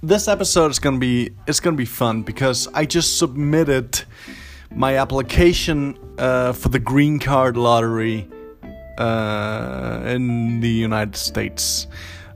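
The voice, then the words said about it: Pretty good American-sounding accent. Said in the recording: “you got a pretty good accent. You sound American. ... I'm Danish.”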